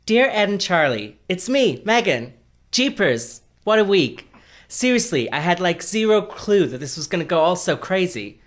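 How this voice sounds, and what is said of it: Put-on American accent. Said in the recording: “let me try and do my American accent.”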